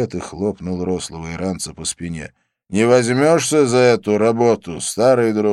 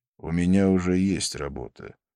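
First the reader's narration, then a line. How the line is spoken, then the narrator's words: Calm. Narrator (Russian): спокойно сказал Абдулла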